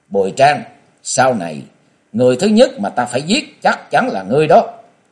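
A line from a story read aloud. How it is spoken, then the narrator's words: Angry, through gritted teeth. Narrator (Vietnamese): Châu Thanh tức giận nghiến răng bảo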